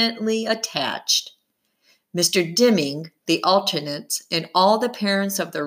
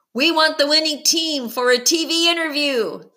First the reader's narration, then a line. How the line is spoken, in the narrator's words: someone else called out